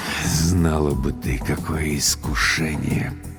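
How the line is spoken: Muttered. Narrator (Russian): пробормотал Владлен Борисович

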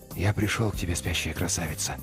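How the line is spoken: Whisper. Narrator (Russian): прошептал он

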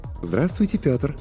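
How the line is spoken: Pleasant cooing female voice. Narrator (Russian): проворковал приятный женский голос

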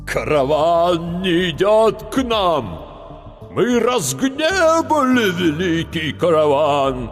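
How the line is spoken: Dreadful elder's voice. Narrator (Russian): заговорил страшным голосом старший

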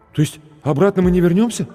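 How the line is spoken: Frightened question. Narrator (Russian): испуганно спросил зеленоглазый блондин в джинсовой куртке

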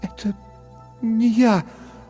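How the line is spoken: Stammering whisper. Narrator (Russian): запинаясь, прошептала Лекса

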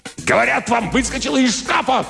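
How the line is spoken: Shouting. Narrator (Russian): кричал Димак

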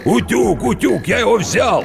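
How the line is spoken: Shouting. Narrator (Russian): кричал

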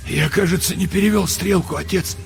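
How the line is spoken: Hoarse. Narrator (Russian): сказал он сипло

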